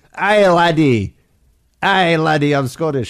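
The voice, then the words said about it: Clumsy put-on Scottish accent. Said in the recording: “Scottish accent ... they just sound like they're having some kind of a stroke”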